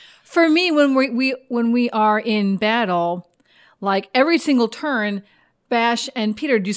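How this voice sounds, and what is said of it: Usual voice. Nothing is said of it.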